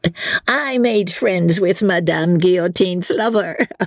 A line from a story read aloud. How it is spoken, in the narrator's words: she said, with a coarse laugh